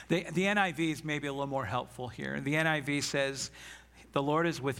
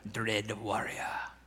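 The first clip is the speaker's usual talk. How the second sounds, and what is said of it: Put-on Scottish accent. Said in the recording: “I wanted to say it with a Scottish accent”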